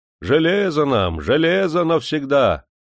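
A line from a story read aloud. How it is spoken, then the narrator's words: Thunderous booming. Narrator (Russian): сынок из гор прогремело громом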